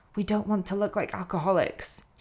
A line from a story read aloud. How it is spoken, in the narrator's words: she whispered